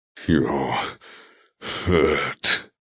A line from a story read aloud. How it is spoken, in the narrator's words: he growls, the sound louder